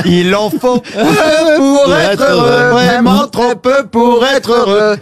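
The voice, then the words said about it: Put-on Antillean accent, singing. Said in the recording (French): “pourquoi tu fais ça avec l'accent antillais?”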